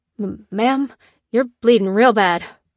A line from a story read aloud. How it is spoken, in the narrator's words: stammered Johnny